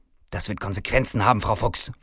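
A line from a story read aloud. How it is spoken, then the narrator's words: Hissed. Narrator (German): faucht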